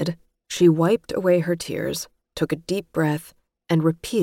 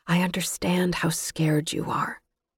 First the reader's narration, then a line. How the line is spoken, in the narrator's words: whisper